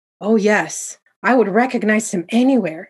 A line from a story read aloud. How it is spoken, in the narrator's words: father exclaimed